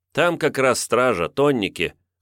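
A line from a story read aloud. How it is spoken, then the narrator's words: Youth's snorting grunt. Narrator (Russian): хмыкнул отрок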